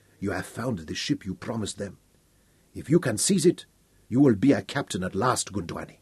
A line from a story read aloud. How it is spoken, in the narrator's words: Aberley said softly